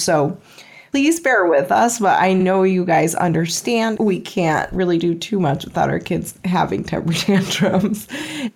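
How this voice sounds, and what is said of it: Sick, slightly off voice. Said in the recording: “I'm sick, so my voice is a little bit off.”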